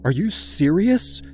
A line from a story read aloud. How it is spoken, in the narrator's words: asked, her voice trembling